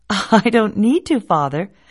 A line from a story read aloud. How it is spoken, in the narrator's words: said the boy with a laugh